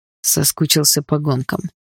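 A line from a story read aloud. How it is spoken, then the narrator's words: Calm. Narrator (Russian): ответил Дима все так же спокойно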